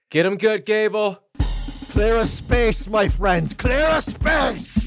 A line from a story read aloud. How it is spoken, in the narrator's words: Jonnet yells over his shoulder